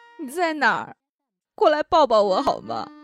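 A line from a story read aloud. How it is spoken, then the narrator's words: Crying woman. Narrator (Chinese): 小姐的哭声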